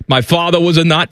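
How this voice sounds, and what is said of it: Poor imitation of another person's voice. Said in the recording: “That's a terrible impersonation.”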